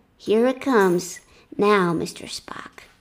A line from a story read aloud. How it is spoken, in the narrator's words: Kirk coolly replied